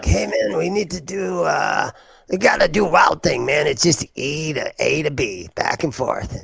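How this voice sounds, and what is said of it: Poorly done imitation of another person. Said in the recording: “my very poorly done impersonation”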